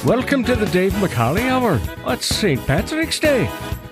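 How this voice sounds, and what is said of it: Not-so-great put-on Irish accent. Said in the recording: “forgive me for that ... that not-so-great Irish accent that I have, because I'm not Irish”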